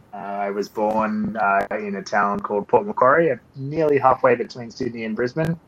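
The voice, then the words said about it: Australian accent. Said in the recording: “if you cannot tell from my accent, I am Australian.”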